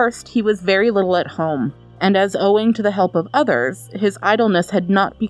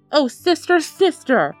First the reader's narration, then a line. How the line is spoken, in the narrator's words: cried Joachim's mother